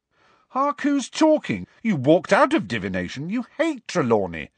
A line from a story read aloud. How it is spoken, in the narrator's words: said Ron indignantly